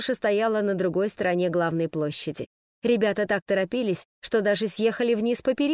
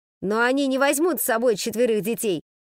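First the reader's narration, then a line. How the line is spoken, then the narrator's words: Shouted. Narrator (Russian): крикнул Фред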